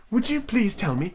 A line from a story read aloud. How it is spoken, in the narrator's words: said Alice a little timidly